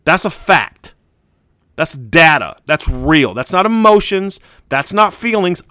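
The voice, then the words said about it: Heated, emotional delivery. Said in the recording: “saying it with emotion. I'm saying it with feeling”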